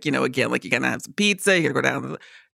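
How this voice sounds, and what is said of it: Put-on New York accent. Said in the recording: “my New Yorker accent is kind of like ... very typical, uh-huh. very typical. You know, easy to do a New Yorker accent”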